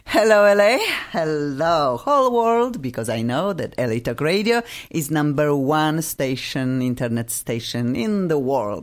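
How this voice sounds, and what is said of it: Speaker with a noticeable accent. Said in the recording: “Obviously, I have an accent”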